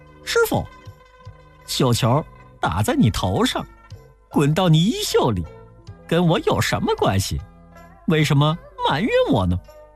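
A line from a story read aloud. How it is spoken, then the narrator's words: Laughing. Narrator (Chinese): 悟空笑了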